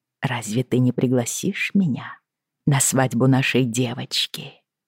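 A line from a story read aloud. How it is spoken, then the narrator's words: Distant whispering voice. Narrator (Russian): Казалось, слова мне нашептывал далекий голос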